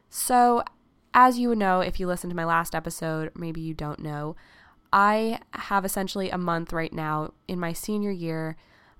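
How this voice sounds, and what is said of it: Raspy, hoarse voice. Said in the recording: “I'm also either allergic to Mother Nature or sick right now, so please forgive my raspy voice.”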